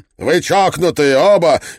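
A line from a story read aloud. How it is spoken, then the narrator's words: Hysterical shout. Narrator (Russian): истерично закричал МакКетчни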